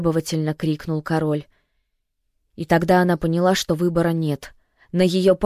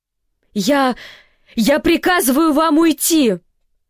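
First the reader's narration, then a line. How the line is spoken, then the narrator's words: Voice-cracking shout. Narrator (Russian): срывая голос, крикнула Сюзан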